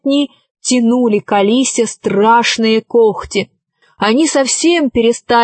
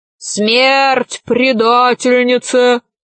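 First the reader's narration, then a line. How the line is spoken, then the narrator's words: Wolf's growl. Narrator (Russian): зарычал волк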